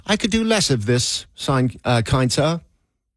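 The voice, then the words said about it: Put-on English accent. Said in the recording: “wonder why you're thinking to yourself in an English accent?”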